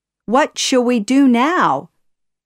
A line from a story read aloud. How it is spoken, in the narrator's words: Iago cried